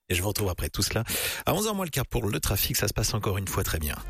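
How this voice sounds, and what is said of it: Usual voice. Nothing is said of it.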